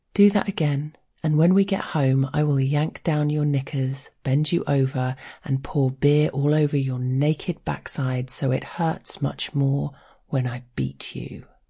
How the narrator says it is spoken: he puts his lips up close to my ear and calmly tells me

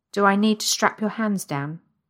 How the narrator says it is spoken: he asks

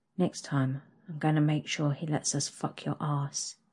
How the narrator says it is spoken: whispers into my ear

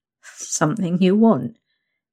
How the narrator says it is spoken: you chuckle

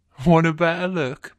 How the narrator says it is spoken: my guy says, chuckling

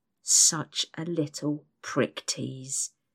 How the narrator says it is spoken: he hisses into my ear

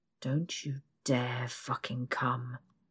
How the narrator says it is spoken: he growls

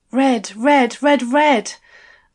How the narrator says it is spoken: gasped

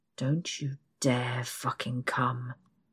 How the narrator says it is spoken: he growls

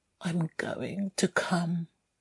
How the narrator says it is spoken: mumbled

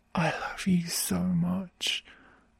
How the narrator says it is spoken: whisper into his ear through my gasps

